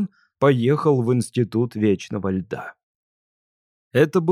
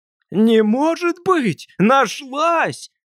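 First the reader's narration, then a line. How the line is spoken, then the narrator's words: Shout. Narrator (Russian): Так же, как дядя Костя, закричал он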